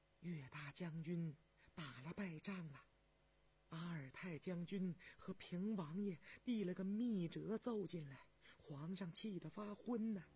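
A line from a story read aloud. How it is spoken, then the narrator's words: Low whisper. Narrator (Chinese): 他压低了嗓门对张廷玉耳语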